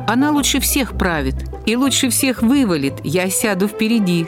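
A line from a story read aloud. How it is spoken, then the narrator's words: Laughing. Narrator (Russian): смеялся Пушкин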